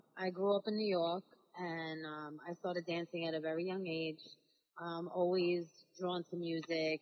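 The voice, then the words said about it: New York accent. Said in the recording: “Are you from Staten Island? Because you have an accent.”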